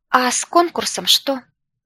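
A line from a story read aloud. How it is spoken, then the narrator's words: Timid question. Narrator (Russian): спросила я робко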